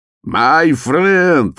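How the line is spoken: Cheerful shout. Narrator (Russian): закричал он, широко улыбаясь Фолину

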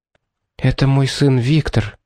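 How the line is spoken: Quiet whisper. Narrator (Russian): тихо прошептала Тора

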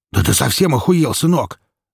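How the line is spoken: Barked. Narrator (Russian): рявкнул Микола

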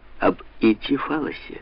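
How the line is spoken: Theatrical whisper. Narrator (Russian): театрально прошептала

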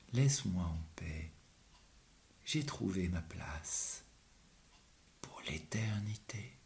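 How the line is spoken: Serene calm voice. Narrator (French): le maître lui répondit d'une voix sereine

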